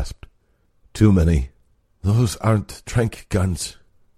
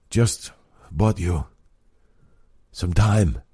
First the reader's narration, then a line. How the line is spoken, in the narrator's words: Robbie gasped